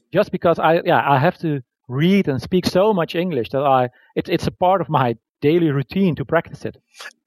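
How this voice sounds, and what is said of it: Slight non-native English accent. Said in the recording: “it's hard to tell that English is not your native language. You have an accent, obviously”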